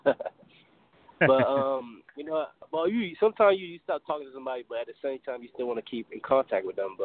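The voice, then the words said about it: Slight island accent. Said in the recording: “I hear a bit of an island accent in your voice”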